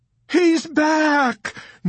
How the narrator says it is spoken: Nurse Kramer screamed

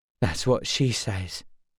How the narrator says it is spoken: he muttered

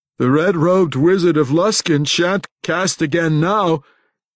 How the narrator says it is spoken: he proclaimed too loudly for the likes of his fellow conspirators

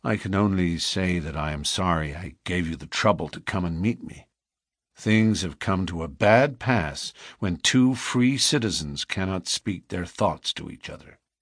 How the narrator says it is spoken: said Morris sadly

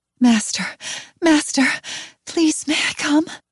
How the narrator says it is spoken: He pants

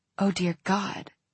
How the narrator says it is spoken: she whispered

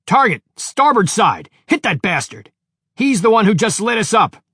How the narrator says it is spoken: shouted Captain Riley

